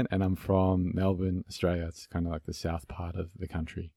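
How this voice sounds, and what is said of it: Australian accent. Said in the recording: “you have a really cool accent ... It's an Aussie accent”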